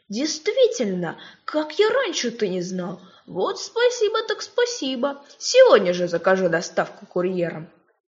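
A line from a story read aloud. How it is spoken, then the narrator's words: Exclamation. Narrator (Russian): он воскликнул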